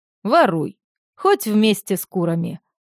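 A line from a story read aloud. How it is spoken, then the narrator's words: Laughing. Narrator (Russian): Славка засмеялась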